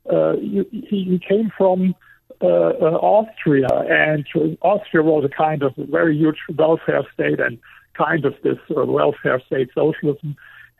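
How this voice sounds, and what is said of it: Non-native accent in English. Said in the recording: “His accent was even harder as my accent is today.”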